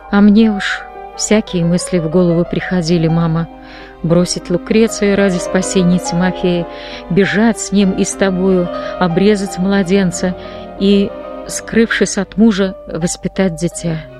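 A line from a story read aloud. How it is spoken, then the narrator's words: Quiet, after crying. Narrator (Russian): Когда у нее перестали течь слезы, она тихо сказала матери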